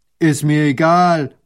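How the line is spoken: Farmer calling. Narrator (German): ruft der Bauer

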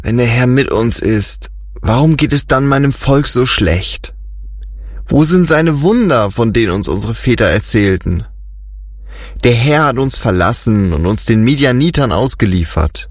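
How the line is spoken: Sad reply. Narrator (German): traurig erwiderte

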